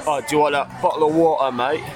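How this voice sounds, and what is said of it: Put-on London accent. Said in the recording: “if you want to do somewhere like from London, it's like”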